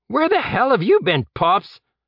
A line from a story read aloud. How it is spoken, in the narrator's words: Colt shouted from behind a half-burned windowsill